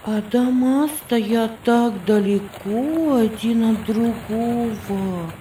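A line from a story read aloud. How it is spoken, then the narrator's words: Singsong. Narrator (Russian): нараспев сказала Виргиния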